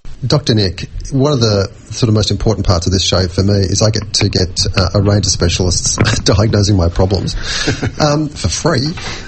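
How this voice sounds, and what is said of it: Voice of someone with a cold. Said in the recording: “I've got a cold like I have now”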